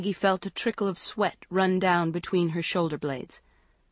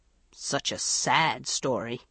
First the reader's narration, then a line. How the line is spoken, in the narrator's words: he muttered